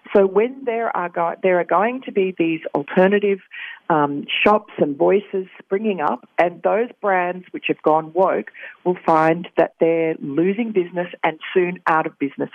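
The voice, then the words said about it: Regal-sounding foreign accent. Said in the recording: “I love the accent ... You make it sound so regal”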